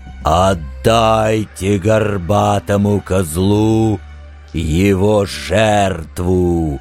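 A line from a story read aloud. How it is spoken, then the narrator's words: Roaring. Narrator (Russian): взревел Люцифер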